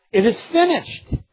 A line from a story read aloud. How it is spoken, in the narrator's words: Christ hung on that cross, taking our sins upon Himself, He cried out triumphantly